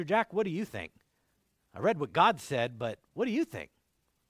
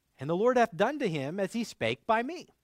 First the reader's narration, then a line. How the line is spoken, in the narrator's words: Samuel says